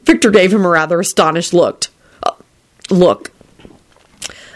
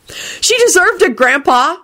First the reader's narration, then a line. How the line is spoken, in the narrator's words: shouted Jamie, Rosie, and Timothy in unison